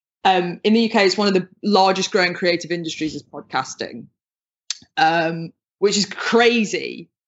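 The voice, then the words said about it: British accent. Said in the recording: “you can probably hear from my accent, I'm from the UK”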